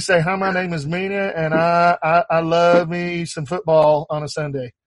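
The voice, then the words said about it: Put-on West Texas accent. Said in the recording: “this is the basis for your West Texas accent right here ... they don't round at all in this accent ... Is that my best accent yet? ... Yes! I think so.”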